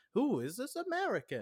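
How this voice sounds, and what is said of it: Put-on accent. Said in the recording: “My accent work is great. ... Oh, it's good. I think it's very good.”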